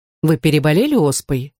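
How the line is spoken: Plain. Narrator (Russian): спросил он

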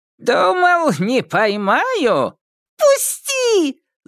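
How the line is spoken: High childlike shout. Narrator (Russian): Закричало существо неожиданно высоким детским голосом

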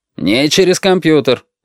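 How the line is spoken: Father barking. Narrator (Russian): рявкнул отец

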